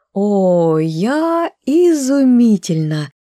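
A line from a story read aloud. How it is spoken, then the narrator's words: Delighted drawl. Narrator (Russian): Протянула восторженно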